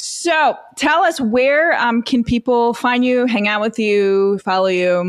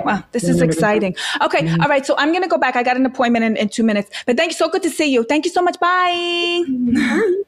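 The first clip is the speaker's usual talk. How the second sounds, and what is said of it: Put-on Italian Queens accent. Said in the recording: “Queens ... I love the accent. ... Italian Queens”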